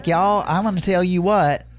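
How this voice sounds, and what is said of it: Exaggerated strong Southern accent. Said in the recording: “this guy has a Southern accent. I mean, a Southern accent. ... It's a very strong Southern accent.”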